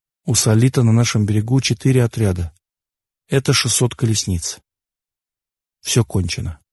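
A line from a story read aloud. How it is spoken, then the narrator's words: Quiet. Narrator (Russian): Тан тихо сказал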